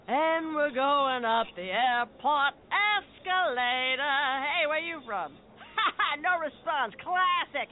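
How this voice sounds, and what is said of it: Traveling lounge singer impression. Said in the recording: “my impression of a traveling lounge singer”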